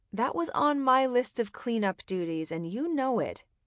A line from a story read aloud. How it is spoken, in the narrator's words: scolded cheerfully